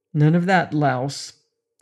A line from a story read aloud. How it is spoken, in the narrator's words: Duquesne said evenly